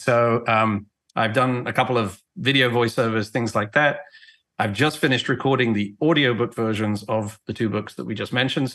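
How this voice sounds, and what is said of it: English accent. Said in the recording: “you can probably tell I'm not from America originally. I was born and raised in England”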